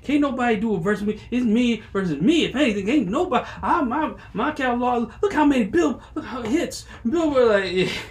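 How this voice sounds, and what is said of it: Imitates another person's voice. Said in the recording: “that was my Chris Brown impression ... You sounded like you was off the coke”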